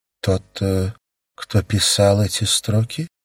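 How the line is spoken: Thoughtful questioning. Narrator (Russian): задумчиво переспросила Юти, еще осмысливая услышанное

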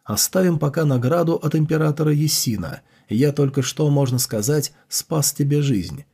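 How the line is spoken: Laughing question. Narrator (Russian): засмеявшись, спросил

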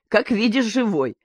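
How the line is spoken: Laughing. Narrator (Russian): засмеялся Николай Иванович

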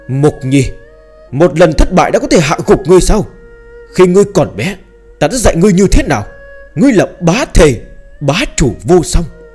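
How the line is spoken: Deep, grave shout. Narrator (Vietnamese): Trưởng Thôn sắc mặt hết sức nặng nề, trầm giọng hét lớn

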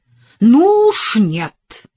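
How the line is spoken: Angry, frightened outcry. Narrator (Russian): гневно выкрикнула она, ужаснувшись тому сильному чувству, которое испытывала при звуках его голоса

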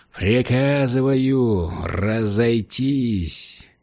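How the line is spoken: Growling. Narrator (Russian): Хендриксон что-то прорычал

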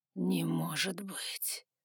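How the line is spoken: Muttering. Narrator (Russian): пробормотал он

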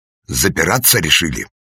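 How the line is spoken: Feigned angry bark. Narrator (Russian): рявкнул Галактион Романович, искусно разыгрывая гнев

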